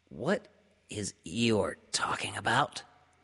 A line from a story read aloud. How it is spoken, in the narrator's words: Piglet whispered to Pooh